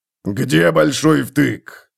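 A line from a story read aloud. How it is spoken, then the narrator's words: Barking. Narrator (Russian): рявкнул он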